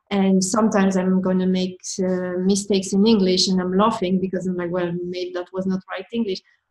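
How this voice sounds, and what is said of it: French-accented English. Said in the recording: “my accent, with my French accent, I keep telling them I cannot hide it”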